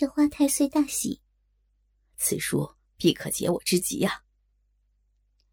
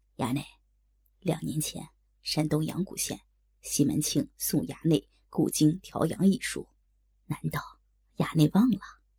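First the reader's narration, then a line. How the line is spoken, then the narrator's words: Whispered in the ear. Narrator (Chinese): 贴耳低声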